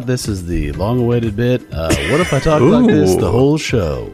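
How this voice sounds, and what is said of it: Slow, low Southern-ish radio voice. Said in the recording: “We're Southern this episode... Kind of Southern. I was going to do this voice last week... Just the whole thing in this like slow and low... Like, Yankees announcer Ken Singleton doing a talk radio, maybe like a Delilah type situation... Delilah or guys on ham radios”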